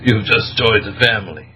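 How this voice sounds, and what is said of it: Put-on Sicilian accent. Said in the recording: “as I use my Sicilian accent”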